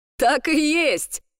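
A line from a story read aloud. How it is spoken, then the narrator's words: Shouting. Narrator (Russian): выкрикнул Флинн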